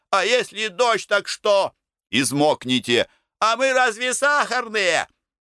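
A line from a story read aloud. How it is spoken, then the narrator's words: Protesting shouts. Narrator (Russian): колонисты протестовали против наших страхов и кричали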